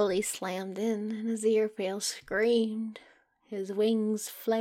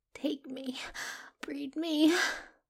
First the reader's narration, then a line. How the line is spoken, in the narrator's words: he begged